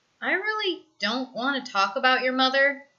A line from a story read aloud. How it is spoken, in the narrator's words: says with a sigh